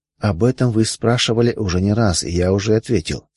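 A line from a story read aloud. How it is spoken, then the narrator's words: Plain. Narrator (Russian): сказал Хэнк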